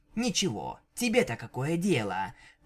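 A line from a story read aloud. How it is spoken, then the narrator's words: Hissed reply. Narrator (Russian): прошипела в ответ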